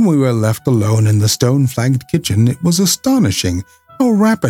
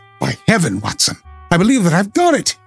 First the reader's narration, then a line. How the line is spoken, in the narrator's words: cried